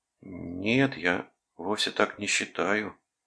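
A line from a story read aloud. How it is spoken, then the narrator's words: Defensive mumbling. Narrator (Russian): промямлил он, как бы оправдываясь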